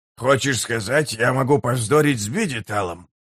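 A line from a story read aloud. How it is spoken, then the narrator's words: Grumbling. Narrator (Russian): проворчал Геборик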